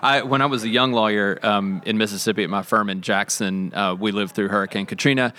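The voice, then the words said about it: Slight Mississippi Southern accent. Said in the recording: “I'm from Mississippi. You can hear my accent coming through just a little bit. It ramps up when I talk to Southerners”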